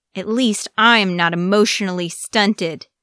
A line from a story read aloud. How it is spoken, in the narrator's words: Iruka said hotly, his voice shaking with anger